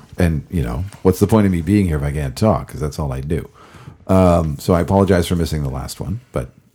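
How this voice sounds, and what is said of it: Slightly gravelly, worn voice. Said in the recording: “my voice was absolutely fried ... My voice is mostly okay. It's still a little gravelly”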